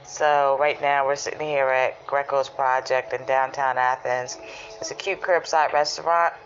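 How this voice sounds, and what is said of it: Almost hoarse voice. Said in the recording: “as you can hear by my tone of my voice, because I'm like almost hoarse”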